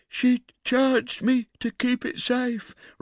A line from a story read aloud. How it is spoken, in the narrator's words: replied the woman with a groan